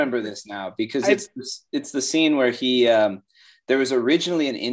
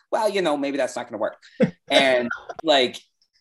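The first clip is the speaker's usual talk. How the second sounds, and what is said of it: Martin Scorsese impression. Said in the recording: “good accent. ... That sounded exactly like Martin Scorsese.”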